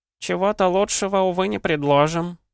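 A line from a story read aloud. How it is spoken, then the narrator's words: Old woman sighing. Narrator (Russian): вздохнула старушка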